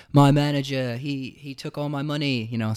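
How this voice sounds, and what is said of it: Bad put-on accent. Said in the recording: “that was such a bad accent ... oh, mate”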